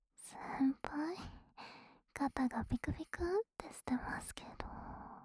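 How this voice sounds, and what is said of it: Whispering close to the ear. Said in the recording (Japanese): “耳元でささやかれて”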